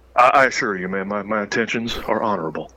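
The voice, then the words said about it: Imitates another person's voice. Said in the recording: “accent,”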